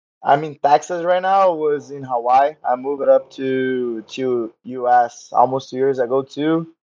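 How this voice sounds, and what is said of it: Brazilian Portuguese accent. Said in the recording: “I'm from Rio, from Brazil. You can see by the accent, my Portuguese accent.”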